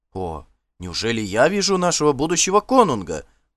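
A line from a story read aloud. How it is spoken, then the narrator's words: Exclaimed. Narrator (Russian): воскликнул он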